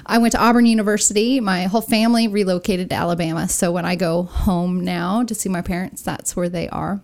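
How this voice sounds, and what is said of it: Southern American accent. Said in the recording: “I'm a SoCal girl turned into a Southerner, I guess. You can't tell that I'm from Southern California anymore with my accent.”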